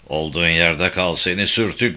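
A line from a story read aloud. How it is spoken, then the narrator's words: Man roaring. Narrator (Turkish): diye kükredi adam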